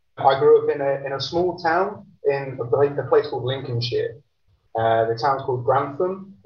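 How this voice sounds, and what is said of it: British accent. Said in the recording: “you can probably tell from the accent, I'm from the UK.”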